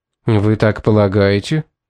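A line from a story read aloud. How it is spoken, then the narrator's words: Dry question. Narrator (Russian): сухо спросил Томас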